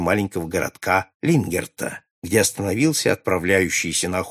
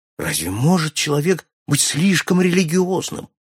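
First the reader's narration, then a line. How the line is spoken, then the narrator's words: Fervent exclamation. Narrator (Russian): воскликнул с жаром Аллен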